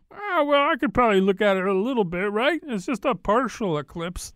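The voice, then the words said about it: Imitates a careless person's voice. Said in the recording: “That's my impersonation of the person who thinks it's okay to do that.”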